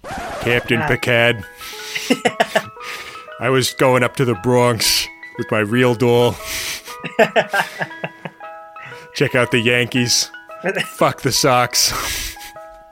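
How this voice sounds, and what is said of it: New York accent Kevin Uxbridge impression. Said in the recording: “I would like to hear the native New Yorker Kevin Uxbridge.”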